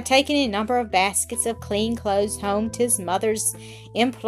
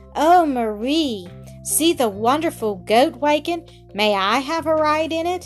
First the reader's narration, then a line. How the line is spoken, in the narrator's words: a little boy, well-dressed, cried